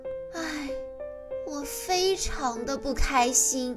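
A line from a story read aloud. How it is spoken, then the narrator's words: Sighing. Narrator (Chinese): 公主叹了口气说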